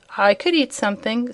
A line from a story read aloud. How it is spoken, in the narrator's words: said Dorothy